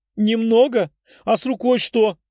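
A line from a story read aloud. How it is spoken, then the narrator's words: Tearful exclamation. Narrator (Russian): Вытерев слезы, воскликнула она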